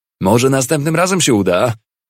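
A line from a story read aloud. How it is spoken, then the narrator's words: Shouted. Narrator (Polish): krzyknął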